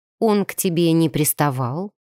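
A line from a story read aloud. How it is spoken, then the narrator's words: Cold question. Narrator (Russian): Уточнила я холодно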